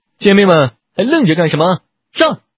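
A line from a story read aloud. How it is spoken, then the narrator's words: Sudden roar, changed voice. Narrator (Chinese): 女老板突然大吼一声，声调全变了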